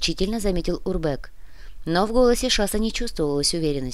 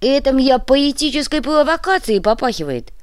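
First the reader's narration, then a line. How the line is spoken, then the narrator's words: Yell. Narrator (Russian): завопил Уйбуй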